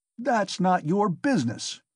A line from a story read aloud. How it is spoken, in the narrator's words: he shouted at last with unnatural loudness